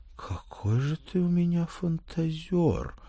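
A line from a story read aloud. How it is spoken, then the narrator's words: Sigh with slight envy. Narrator (Russian): мама вздохнула с легким оттенком зависти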